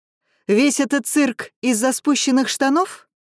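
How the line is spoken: Shouted out. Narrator (Russian): Алекс выкрикнула

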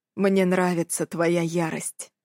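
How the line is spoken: Quiet. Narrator (Russian): говорит он тихо

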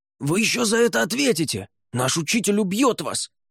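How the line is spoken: Offended young men shouting. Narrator (Russian): кричали уязвленные юноши

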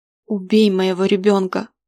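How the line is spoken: Woman pleading. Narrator (Russian): взмолилась Зибилли

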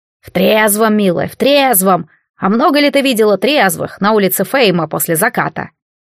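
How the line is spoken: Snorting. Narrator (Russian): Я фыркнула

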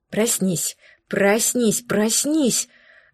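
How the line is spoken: Strangled demanding whisper. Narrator (Russian): сдавленным шепотом требовала я сама у себя

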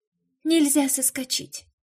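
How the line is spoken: Sighing. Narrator (Russian): вздохнула Марина

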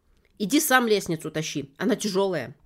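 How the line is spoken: Sharp bark. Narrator (Russian): рявкнула Саша

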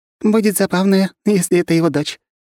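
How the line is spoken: Giggling fairy. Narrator (Russian): хихикала фея

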